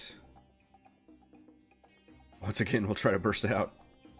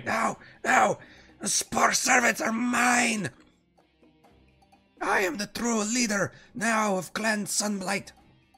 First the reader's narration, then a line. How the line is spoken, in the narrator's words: Nildar is apoplectic just screaming